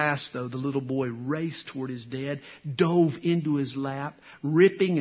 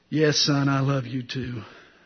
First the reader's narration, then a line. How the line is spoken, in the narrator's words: from behind the newspaper, Dad sort of groaned back